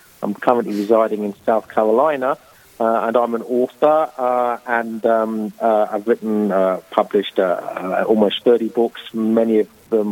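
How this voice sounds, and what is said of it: English accent. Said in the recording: “As my accent will betray, I'm a native of England”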